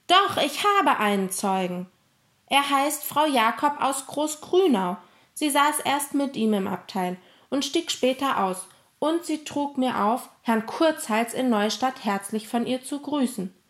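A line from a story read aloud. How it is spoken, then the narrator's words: Calling out. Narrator (German): rief Emil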